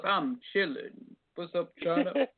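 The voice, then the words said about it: Imitation of the caller's voice. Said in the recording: “I got to do your voice.”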